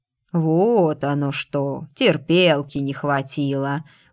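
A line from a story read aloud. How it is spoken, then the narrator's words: Meaningful scoff. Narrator (Russian): многозначительно хмыкнул падре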